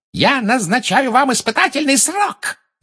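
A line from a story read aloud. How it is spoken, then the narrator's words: Screamed. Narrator (Russian): завопила Амбридж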